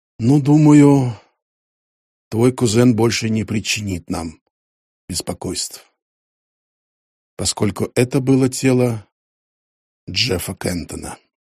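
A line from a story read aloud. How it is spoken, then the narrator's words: Grim. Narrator (Russian): Дин мрачно сказал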